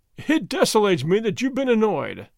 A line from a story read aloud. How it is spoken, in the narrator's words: said, laughing